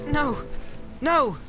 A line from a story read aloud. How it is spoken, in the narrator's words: cried Frodo